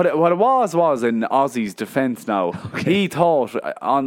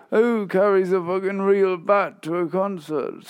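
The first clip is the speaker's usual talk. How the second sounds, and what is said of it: Bad impression of a rock singer. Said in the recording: “That was a bad Ozzy impression.”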